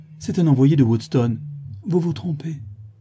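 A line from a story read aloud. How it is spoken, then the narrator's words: Sad. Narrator (French): répondit tristement Éléonore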